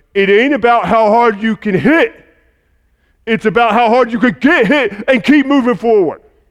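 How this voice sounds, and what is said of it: Imitation of a movie boxer's voice. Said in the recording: “my best Rocky impression ... you probably sounded authentic”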